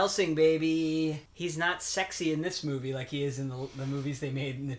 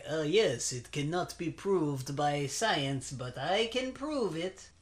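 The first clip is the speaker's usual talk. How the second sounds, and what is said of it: Attempted German accent, not convincing. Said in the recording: “Did I do his accent right? ... Not really. ... I think he's German”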